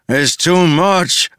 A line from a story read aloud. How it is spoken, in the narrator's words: a man cried